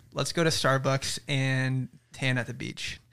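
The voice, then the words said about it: Convincing put-on American accent. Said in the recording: “Can we hear your best American accent impression? ... Bro, it's so good. ... That was so good. ... you could play American roles”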